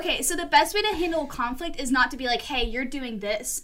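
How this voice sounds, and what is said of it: Talking very loudly. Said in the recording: “I'm talking really loud.”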